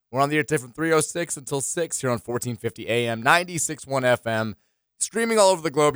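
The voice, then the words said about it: Slightly hoarse voice. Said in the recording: “still with a slightly hoarse voice. It's going to get slightly more hoarse as this 3 hour show goes on.”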